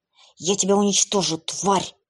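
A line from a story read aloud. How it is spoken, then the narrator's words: Hissing. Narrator (Russian): прошипела Эбби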